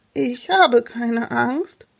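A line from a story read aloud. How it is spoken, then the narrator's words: Trembling voice. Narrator (German): erklärte Jonas mit zitternder Stimme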